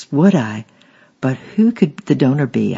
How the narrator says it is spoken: gasped

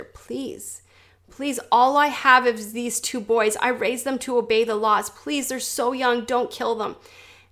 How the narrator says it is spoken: The father with his two boys yells

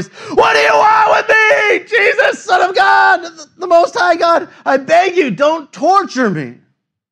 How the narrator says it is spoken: he cried out, shouting at the top of his voice

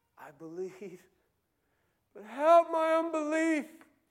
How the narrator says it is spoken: the father of the child cries out

